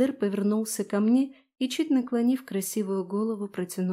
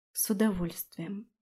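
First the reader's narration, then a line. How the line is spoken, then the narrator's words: Whisper. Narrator (Russian): прошептала я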